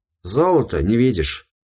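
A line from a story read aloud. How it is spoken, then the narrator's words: Gloomy mutter. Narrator (Russian): мрачно буркнул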